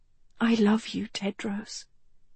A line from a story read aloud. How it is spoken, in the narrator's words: she whispered